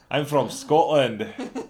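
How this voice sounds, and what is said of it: Put-on Scottish accent. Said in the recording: “That's my Scottish voice.”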